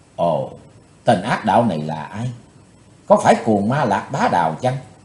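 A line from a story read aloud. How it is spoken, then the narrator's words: Quiet murmur to himself. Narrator (Vietnamese): chàng thiếu hiệp khẽ thầm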